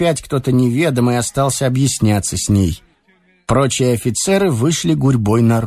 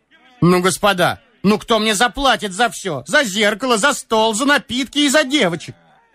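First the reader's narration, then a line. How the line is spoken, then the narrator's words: Wailing shout. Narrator (Russian): кричала плачевно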